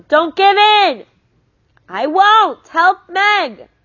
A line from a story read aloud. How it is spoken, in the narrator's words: Calvin yelled back